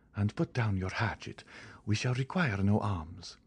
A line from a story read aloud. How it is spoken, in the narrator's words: whispered Monte Cristo